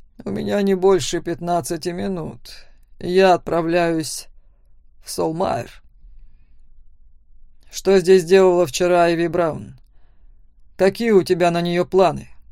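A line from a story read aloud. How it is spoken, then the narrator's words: Growling. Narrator (Russian): Сразу же зарычал Макс на отца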